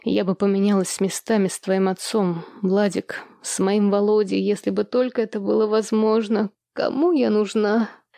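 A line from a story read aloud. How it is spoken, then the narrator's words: Heavy sigh. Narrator (Russian): Елизавета Аркадьевна тяжело вздохнула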